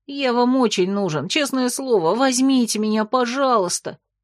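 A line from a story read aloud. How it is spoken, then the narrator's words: Uncertain, pleading, plaintive. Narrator (Russian): Последняя фраза прозвучала неуверенно, просительно и жалобно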